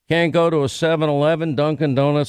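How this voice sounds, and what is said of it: Slight put-on Indian accent. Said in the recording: “slight Indian accent”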